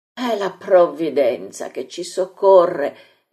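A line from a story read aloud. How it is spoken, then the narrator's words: Exclamation. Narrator (Italian): esclama Gesù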